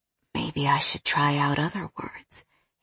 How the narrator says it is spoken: he whispered

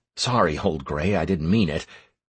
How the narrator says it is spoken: I muttered

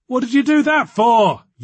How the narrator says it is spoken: yelled Alison

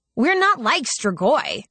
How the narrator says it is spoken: I snapped

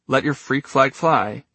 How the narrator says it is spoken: he said dryly

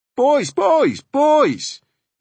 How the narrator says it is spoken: he yelled above the roar of the engine

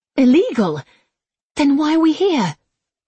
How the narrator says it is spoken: she asked nervously

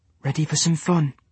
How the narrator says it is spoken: whispered

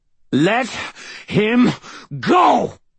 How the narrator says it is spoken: spat the old man between breaths

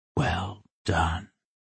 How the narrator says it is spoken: Rin whispered

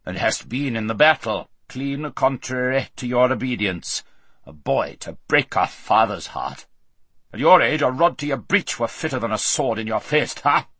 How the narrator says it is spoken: said the king in a very gruff voice

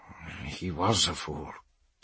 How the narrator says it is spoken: the scholar murmurs

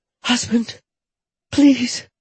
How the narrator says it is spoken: Afraid he was going to stop, Jetta cried

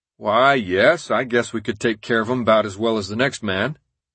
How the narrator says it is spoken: Sylvain, drawling

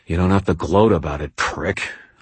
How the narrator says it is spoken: muttered under my breath

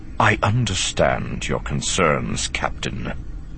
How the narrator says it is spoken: he said quietly

